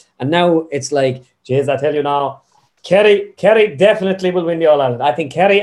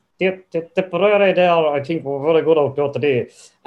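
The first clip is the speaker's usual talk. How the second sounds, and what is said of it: Imitates another person's voice. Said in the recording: “my first impersonation of anybody isn't the best one, because as I do it, the more I do it, the more it gets better. It's like Loch Nan at the start was like”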